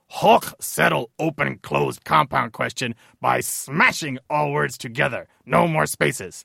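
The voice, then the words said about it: Hulk cartoon character voice impression. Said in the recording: “I'm going to read it in my impression of the Hulk's voice”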